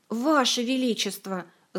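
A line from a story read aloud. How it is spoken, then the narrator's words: Pleading. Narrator (Russian): взмолилась Ольга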